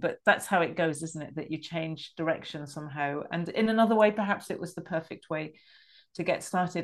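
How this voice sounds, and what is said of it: British English accent. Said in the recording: “very obvious, probably from my accent, that I grew up, I'm British, and I grew up in England ... middle class English”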